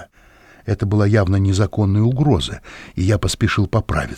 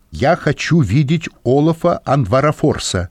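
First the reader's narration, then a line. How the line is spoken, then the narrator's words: Very loud. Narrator (Russian): сказал он очень громко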